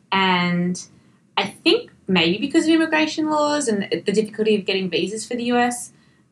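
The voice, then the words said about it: Australian accent. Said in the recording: “when you have an Australian accent ... oh, you're from Australia, I love your accent”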